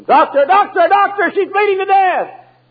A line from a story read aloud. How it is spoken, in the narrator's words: the nurse began to scream